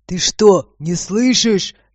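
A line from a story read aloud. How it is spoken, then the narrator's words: Irritated bark, man. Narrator (Russian): рявкнул мужчина, начиная раздражаться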